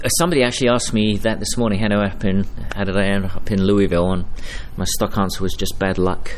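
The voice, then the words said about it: Non-local accent. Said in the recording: “I can tell by your accents, you're not from around here”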